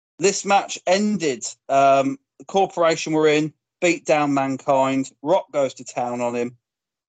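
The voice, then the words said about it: Hoarse, failing voice. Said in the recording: “my voice is going, if you can hear it”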